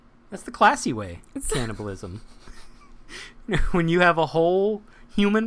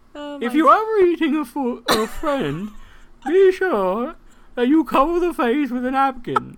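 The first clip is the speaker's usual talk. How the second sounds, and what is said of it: Julia Child impression. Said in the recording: “I believe Julia Child gave that gave that tip. ... I can't do her. I can't do her voice.”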